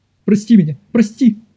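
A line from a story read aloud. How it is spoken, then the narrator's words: Pleading. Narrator (Russian): взмолился Колин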